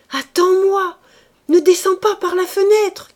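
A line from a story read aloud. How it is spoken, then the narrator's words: Shouting. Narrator (French): criait-elle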